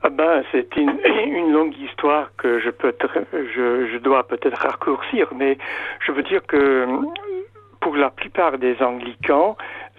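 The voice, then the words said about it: English accent speaking French. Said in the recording (French): “Vous êtes anglican, anglais, on va l'entendre à votre accent.”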